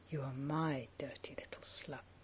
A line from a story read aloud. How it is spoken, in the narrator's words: say softly